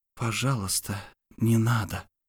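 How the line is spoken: Very quiet whisper. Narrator (Russian): шепнула я так тихо

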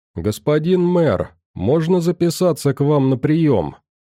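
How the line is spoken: Ironic shout into emptiness. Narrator (Russian): С иронией в голосе прокричал я в пустоту

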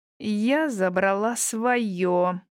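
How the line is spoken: Furious spluttering growl. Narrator (Russian): прорычала Вера, чуть ли не брызжа слюной

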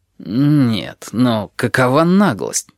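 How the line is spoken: Muttered. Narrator (Russian): пробормотал Ральф

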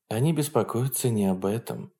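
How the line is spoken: Quiet answer. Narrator (Russian): тихо ответила Хенке

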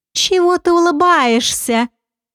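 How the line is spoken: Purring. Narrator (Russian): промурлыкала Шан

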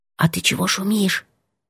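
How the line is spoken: Whispered. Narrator (Russian): сказала шепотом

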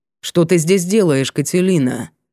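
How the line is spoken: Low, commanding, dry voice. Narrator (Russian): Низкий голос звучал властно и сухо

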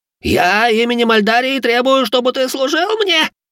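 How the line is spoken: Cracking, squeaky voice. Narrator (Russian): Голос студиоза дал петуха, и последнюю фразу он пропищал

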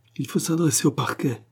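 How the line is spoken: Exclaiming. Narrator (French): s'écria René

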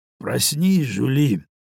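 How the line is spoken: Hoarse voice. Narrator (Russian): сказал он охрипшим голосом

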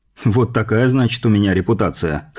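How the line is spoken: Snorting. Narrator (Russian): хмыкнул я

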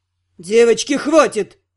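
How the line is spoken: Growled. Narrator (Russian): рыкнул кто-то

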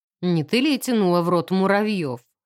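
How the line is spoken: Snorting remark. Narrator (Russian): хмыкнул профессор Фаулер

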